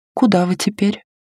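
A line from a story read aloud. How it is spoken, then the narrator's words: Timid question. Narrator (Russian): робко спросила Бо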